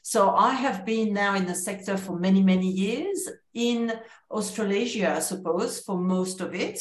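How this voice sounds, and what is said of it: French accent. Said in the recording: “my accent continues to betray that I am French originally”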